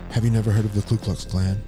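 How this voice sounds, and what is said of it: Low, sinking voice. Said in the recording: “in a sinking voice”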